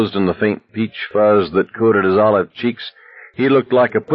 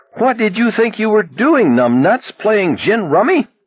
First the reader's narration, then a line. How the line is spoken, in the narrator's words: He screamed at the top of his lungs